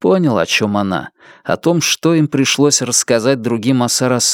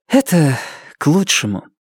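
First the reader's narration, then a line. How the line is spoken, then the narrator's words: Sighing. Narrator (Russian): Нефрита вздохнула и сказала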